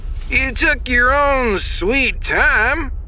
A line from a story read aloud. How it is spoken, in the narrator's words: Leox drawled over the comm